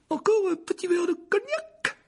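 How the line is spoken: Frightened exclamation. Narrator (French): s'écria l'oncle Vernon, qui était devenu livide

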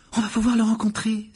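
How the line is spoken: Exclaiming. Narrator (French): s'écria Hermione

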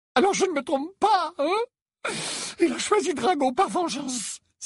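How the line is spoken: Choked cry. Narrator (French): s'écria Narcissa d'une voix étranglée

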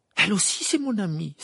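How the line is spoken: Exclaiming. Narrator (French): s'écria Harry

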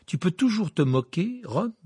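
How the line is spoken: Fiery, impassioned. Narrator (French): dit-il d'un ton enflammé

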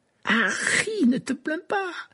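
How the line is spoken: Enthusiastic voice. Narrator (French): dit Ron d'une voix enthousiaste

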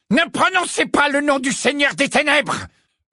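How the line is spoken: Bellowed. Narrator (French): vociféra Rogue

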